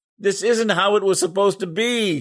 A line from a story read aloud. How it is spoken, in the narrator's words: he screamed